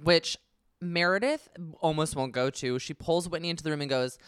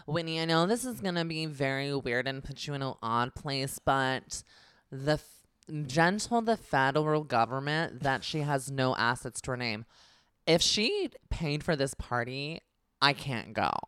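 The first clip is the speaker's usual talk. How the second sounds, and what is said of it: Imitates another person's voice. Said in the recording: “this is not a bad impression of Meredith. Like, well done. I'm actually kind of impressed ... my Meredith impersonation”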